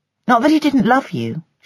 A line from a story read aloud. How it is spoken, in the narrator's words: she added quickly